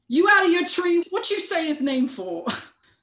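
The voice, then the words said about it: Put-on accent for a character. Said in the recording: “Sorry about my accent.”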